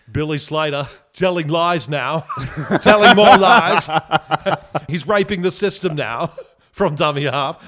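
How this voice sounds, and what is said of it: Ray Warren commentary impression. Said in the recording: “That wasn't the best Ray Warren impression. ... It was pretty good.”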